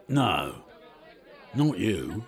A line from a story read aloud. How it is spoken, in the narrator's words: he grunted